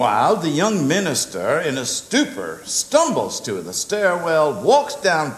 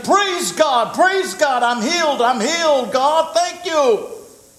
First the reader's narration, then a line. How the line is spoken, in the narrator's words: she gets out of bed, begins to run up and down the hallway of the hospital shouting